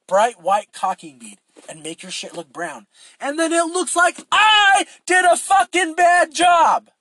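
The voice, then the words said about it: Shouting, raised angry voice. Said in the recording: “I think that's the highest I've ever raised my voice on this fucking podcast.”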